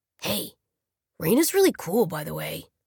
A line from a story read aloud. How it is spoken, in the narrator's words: Simon whispered to Maddie